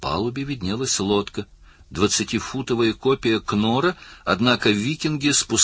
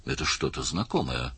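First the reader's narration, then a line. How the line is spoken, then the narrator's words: Muttering. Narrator (Russian): пробормотал Даллас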